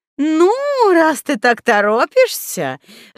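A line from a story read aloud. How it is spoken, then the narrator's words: Broad smile. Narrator (Russian): широко улыбнулась Зюльфира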